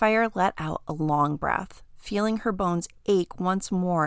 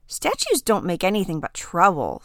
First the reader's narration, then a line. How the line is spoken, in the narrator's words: Sapphire sighed, feeling a pang in her tail